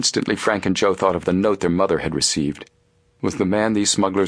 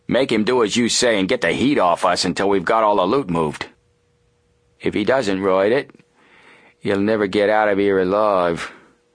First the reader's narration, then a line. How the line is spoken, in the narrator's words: the first man promised coldly